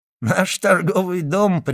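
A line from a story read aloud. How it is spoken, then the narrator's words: Englishman speaking while laughing. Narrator (Russian): прибавил англичанин, смеясь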